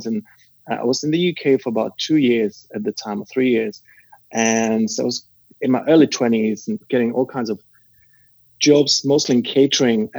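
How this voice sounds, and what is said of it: Non-British foreign accent. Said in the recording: “I live in the UK, in London, and I'm not from here, as you can probably, you know, tell by my accent”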